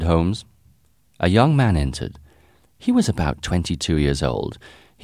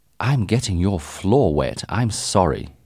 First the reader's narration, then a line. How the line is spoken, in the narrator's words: said